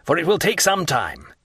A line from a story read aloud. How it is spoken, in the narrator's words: said Villefort impatiently